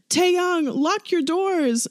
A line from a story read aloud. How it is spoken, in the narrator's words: Namjoon shouts